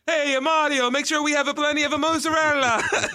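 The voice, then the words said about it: Put-on Italian accent. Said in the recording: “Italian accents”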